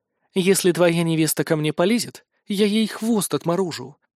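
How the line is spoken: Blurted, cynically calm. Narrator (Russian): выпалила магичка цинично спокойным тоном

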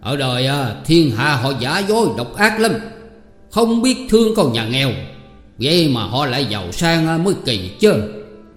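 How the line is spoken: Angry old man. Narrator (Vietnamese): ông cũng tức giận nên đứng dậy bước ra đứng giữa cửa mà nói rằng

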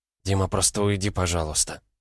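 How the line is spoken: Whisper. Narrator (Russian): прошептала Лена

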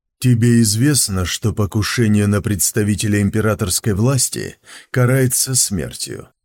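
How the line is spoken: Bored question. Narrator (Russian): Скучным тоном спросил Сун Цзиюй

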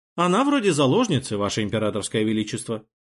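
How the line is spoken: Calm, patient remark. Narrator (Russian): спокойно и терпеливо заметил глава СБ

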